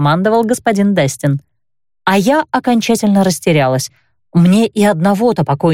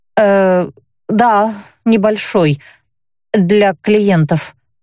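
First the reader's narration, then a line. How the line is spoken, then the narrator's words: Uncertain. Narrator (Russian): неуверенно подтвердила я, поскольку сама еще была не в курсе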